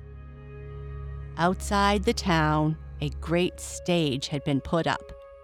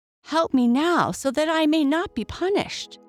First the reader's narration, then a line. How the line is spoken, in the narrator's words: cried the soldier